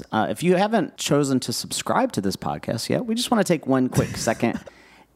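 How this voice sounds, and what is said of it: Announcer-style voice. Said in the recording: “you sound like an announcer”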